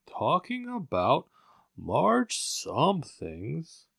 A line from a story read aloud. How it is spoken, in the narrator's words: went on dreamily